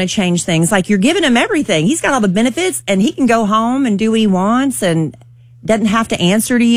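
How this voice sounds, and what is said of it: Usual voice. Nothing is said of it.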